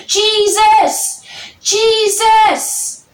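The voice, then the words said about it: Shouting loudly. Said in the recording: “raising my voice”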